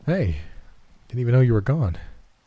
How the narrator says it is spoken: said in a tired tone

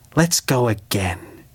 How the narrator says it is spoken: breathed

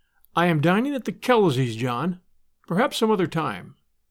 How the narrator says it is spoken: Angry to feel herself a little at loss, Margaret said in a carefully controlled tone

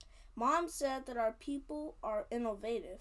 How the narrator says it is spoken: answered Karen

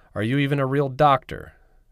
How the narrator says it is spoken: Brown yelled

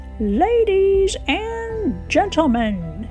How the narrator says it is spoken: boomed a voice

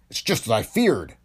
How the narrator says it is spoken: Cathay exclaimed

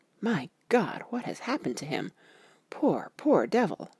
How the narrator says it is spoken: When Quincy saw the attitude and state of the patient, and noted the horrible pool on the floor, he said softly

